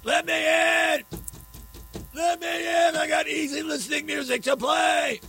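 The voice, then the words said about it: Screaming character voice. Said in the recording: “he's screaming”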